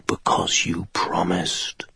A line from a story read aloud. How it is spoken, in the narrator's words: the jewel whispered